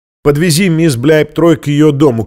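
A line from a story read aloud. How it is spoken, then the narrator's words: Shouted. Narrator (Russian): крикнул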